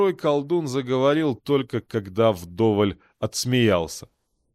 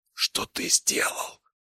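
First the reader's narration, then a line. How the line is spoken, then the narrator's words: Whispered. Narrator (Russian): прошептал Найпал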